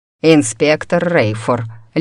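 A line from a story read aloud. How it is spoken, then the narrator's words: Icy tone. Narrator (Russian): ледяным тоном начал отчим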